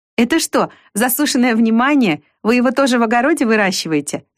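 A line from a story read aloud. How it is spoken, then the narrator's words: Laughing. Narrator (Russian): засмеялась Вика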